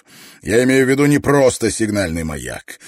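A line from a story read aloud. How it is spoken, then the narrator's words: Professor barking. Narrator (Russian): рявкнул профессор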